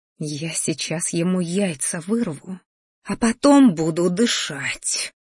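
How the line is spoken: Angry hiss. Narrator (Russian): злобно прошипела матушка в ответ

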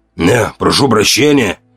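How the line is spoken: Hoarse, forced formal politeness. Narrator (Russian): выдохнул, хриплом голосе вынужденная, почти официальная вежливость

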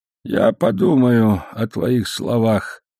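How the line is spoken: Unsteady voice. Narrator (Russian): сказал он нетвердым голосом

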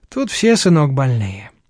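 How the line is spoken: Sighing older woman. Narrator (Russian): вздохнула тетка

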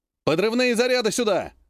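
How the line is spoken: Shouted. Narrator (Russian): крикнул капитан Лотош

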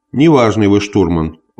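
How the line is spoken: Mild heat-weary objection. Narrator (Russian): возразил Гриффитс, слишком распаренный зноем, чтобы говорить более резко

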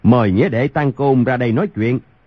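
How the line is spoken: Loud calling out. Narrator (Vietnamese): Thiếu Một Chân cao giọng gọi lớn

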